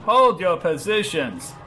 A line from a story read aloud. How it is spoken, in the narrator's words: yelled Von Grunkle